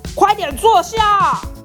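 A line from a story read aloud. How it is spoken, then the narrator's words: Angry shouting. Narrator (Chinese): 消防队叔叔超生气，一直大喊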